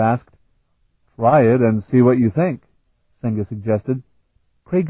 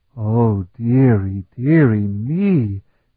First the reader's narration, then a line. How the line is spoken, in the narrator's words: he breathed in a reverent tone of voice